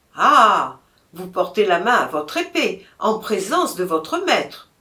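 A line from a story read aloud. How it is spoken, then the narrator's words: Exclaimed. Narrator (French): s'écria Robert de Loire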